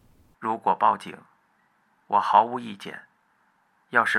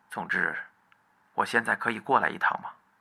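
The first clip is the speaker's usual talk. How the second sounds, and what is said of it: Low, deep voice. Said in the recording (Chinese): “食神用低沉的声音说道”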